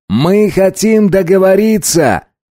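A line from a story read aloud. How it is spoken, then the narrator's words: Shouting. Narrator (Russian): крикнул Райли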